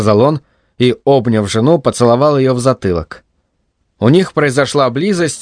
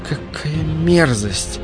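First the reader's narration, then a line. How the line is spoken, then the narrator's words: Secretive whisper. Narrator (Russian): прошептала Лена, чтобы муж ее не услышал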